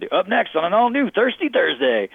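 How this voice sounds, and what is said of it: Put-on southern redneck announcer voice. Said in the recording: “I had a redneck voice that that's probably a pejorative. I had a southern accent that I used for a very long time on CMT”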